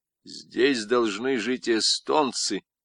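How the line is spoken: Plain, while walking away. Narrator (Russian): сказал он, уходя

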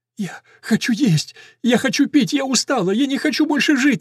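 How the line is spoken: Sobbing. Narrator (Russian): рыдает она

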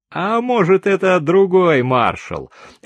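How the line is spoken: Quick reply. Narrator (Russian): тут же ответил Франц

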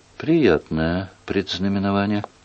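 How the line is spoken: Dejected mutter. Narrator (Russian): огорченно пробормотала принцесса

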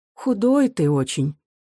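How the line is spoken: Sighing mother. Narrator (Russian): вздохнув, говорила мать

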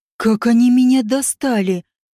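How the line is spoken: Furious hiss. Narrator (Russian): разъяренно прошипел Деширалеш

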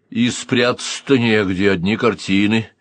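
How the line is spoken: Grumbling. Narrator (Russian): проворчал Даниил

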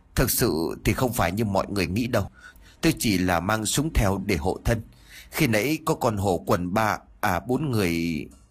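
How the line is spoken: Trembling voice. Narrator (Vietnamese): Giọng nói vẫn còn run rẩy

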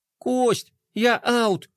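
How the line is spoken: Resigned sigh. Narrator (Russian): вздохнул Рома, вынужденный сдаться

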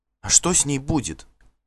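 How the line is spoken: Plain. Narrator (Russian): спросила Сальвейк

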